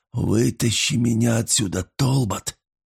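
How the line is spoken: Repeated in a whisper. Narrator (Russian): повторил шепотом

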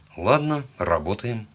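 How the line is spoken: Muttering to oneself. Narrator (Russian): пробормотал я сам себе

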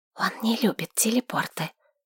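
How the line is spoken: Whisper. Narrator (Russian): шепнула Лорна

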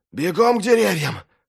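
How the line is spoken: Hoarse breathless. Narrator (Russian): хрипло выдохнул Вест

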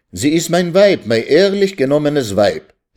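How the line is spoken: Carried away, crying out. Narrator (German): rief, sich vergessend, Jaikew

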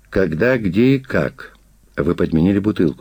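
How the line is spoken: Plain question. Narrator (Russian): спросил Агеев

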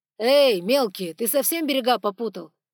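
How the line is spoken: Roar. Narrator (Russian): взревел Саргон

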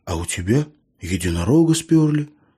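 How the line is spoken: Quiet, calm reply. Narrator (Russian): тихо и спокойно ответил ему эльф

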